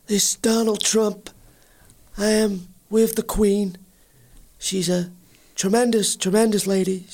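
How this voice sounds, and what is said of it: Donald Trump impression, Brando-like. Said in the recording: “This is very close to your Marlon Brando impression.”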